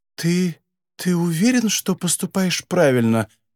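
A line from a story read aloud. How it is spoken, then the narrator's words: Embarrassed, horrified whisper. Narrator (Russian): смущенно прошептала она в ужасе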